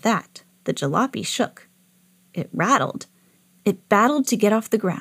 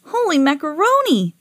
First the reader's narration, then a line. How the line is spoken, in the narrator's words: cried